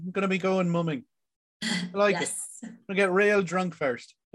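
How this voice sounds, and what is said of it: Put-on Irish accent. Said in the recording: “Did I switch accents? ... Irish is fine. ... your accent isn't technically wrong.”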